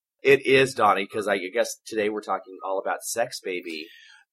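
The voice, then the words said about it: Low husky sultry voice. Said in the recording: “sexy voice ... Others call it the smoker's voice ... my Suzanne Plachet impression ... I can even go down like this”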